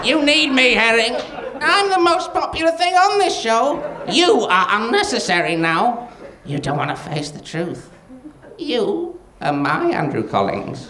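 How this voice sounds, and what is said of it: Silly put-on character voice. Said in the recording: “a man with a stupid voice saying aside over and over again”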